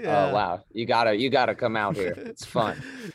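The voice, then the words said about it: Country twang in voice. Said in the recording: “You have twang in your voice right now? ... Caught the twang.”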